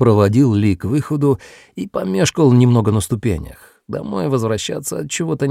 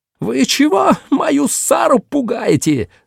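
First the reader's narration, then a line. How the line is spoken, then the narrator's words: Screaming. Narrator (Russian): завопила она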